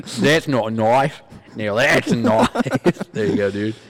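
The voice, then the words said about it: Attempted Australian accent. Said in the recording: “I can't do Australian accent, guy ... the key to an Australian accent is just replacing the O sound with an R”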